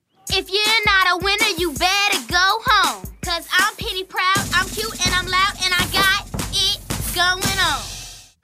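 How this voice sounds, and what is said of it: Cartoon character voice. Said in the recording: “Does this voice sound familiar to you? If you're thinking Penny Proud from the Proud Family, well, then you are absolutely right.”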